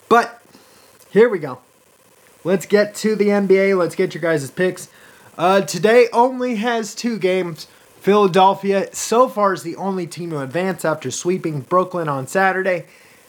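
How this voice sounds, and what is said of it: Croaky, congested voice. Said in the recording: “my voice sounds a little crocky. I still have some phlegm built up in my nose.”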